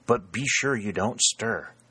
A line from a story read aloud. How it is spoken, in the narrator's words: the sergeant whispered back